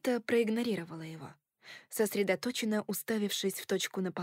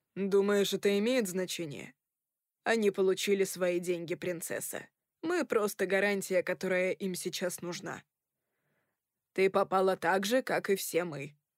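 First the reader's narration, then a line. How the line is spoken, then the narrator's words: Snort. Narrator (Russian): фыркнул Рой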